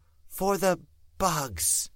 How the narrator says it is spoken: she said, whispering the last word

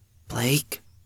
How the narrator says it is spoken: Tiff murmured

